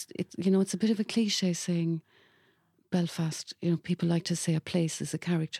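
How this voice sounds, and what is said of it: Cork Irish accent. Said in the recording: “my Cork accent”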